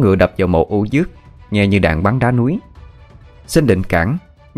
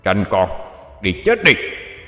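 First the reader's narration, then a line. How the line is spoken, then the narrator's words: Shout. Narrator (Vietnamese): Quan cục đầu quát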